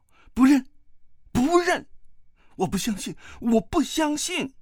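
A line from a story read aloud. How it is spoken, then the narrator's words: Shouting. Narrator (Chinese): 段誉叫道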